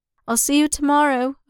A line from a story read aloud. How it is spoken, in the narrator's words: Obi-Wan called out